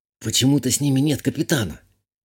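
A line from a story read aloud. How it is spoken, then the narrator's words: Whisper. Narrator (Russian): шепотом сказала я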